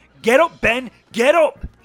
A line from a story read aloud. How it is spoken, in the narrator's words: shouted